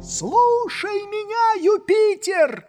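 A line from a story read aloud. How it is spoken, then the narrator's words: Shouted in great agitation. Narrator (Russian): закричал Легран в необычайном волнении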